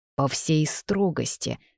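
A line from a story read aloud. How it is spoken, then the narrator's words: Growling. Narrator (Russian): снова рыкнул Артуан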